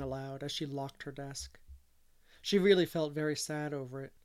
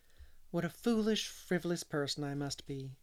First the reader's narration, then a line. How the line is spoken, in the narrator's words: she sighed